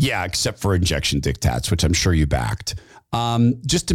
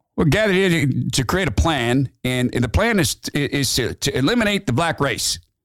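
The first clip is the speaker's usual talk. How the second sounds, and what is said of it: Imitates another person's voice. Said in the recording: “I can't do white supremacist voice without it ... I'll try to do it in Metzger's voice”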